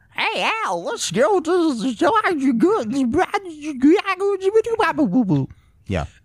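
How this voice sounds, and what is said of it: Exaggerated goofy old grandpa voice. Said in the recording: “his grandpa talks like ... really play up the goofy grandpa role, like to like 11, like just ... to its utmost extreme”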